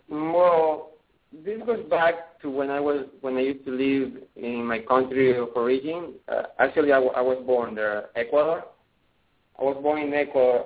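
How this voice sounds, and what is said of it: Strong Ecuadorian Spanish accent. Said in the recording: “I was born in Ecuador ... So that's why we have a strong accent.”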